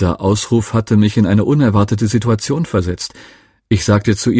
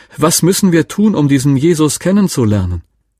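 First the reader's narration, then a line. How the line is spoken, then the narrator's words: Sudden loud woman's call. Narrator (German): rief eine Frau plötzlich ganz laut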